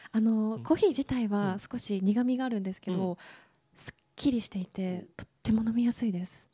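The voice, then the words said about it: Speaking in a quiet, hushed voice. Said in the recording (Japanese): “小声になる感じなんですね。... 先ほどからちょっと小声になってるんですけれども”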